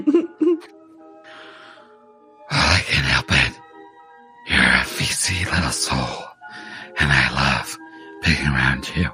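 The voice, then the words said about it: Strained put-on character voice. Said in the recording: “I'm out of ... Breath doing this voice.”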